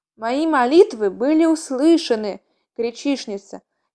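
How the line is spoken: Soft whisper. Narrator (Russian): мягко прошептала она

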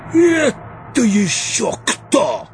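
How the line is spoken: Barked. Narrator (Russian): рявкнуло его сиятельство

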